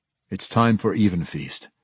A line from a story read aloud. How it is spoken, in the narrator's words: Drizzt said, quietly but forcefully